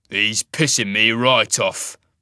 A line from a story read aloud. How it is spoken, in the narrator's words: the wolf rasped angrily